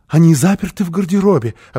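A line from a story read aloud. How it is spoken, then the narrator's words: Explaining, frightened joyful laugh. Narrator (Russian): объяснила Фрёкинбок и засмеялась испуганно и радостно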